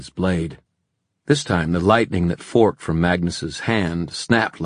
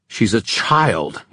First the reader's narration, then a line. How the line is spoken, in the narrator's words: he snarled